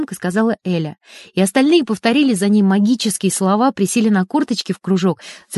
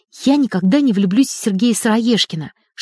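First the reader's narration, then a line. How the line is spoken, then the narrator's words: Whisper. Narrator (Russian): шепотом начала электроничка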